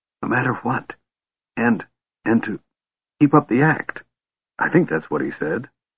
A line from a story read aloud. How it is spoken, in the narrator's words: Tass whispered swiftly